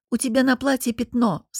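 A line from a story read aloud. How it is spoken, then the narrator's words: Plain. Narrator (Russian): сказала ей Софья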